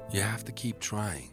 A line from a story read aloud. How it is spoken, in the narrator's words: would whisper to him each night as they lay in their single bed